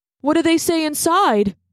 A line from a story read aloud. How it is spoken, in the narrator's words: asked Darsh, poking at his book nervously